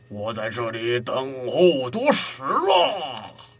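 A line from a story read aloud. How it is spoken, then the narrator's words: Loud call. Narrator (Chinese): 关羽高声叫道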